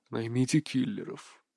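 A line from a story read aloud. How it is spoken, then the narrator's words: Speaking through clenched teeth. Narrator (Russian): процедил он сквозь зубы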